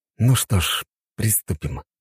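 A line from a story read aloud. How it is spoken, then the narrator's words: Whisper. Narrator (Russian): прошептал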